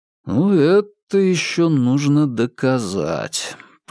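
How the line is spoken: Drawled. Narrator (Russian): протянул Вербин

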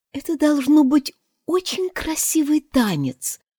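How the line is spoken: Timid remark. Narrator (Russian): робко заметила Алиса

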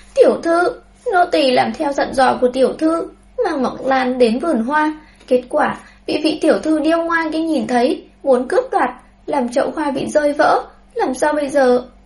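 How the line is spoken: Sobbing maid. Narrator (Vietnamese): Nha hoàn tên Tiểu Thọ kia cũng đến bên cạnh thiếu nữ, khóc nức nở nói

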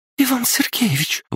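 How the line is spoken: Terrified squeal. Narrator (Russian): в ужасе взвизгнула Пупс

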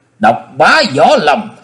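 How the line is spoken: Startled cry. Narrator (Vietnamese): Nhiệt Nhĩ Hầu thẳng thốt kêu lên

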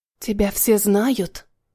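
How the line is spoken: Quiet private whisper. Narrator (Russian): прошептала так, чтобы услышал он один

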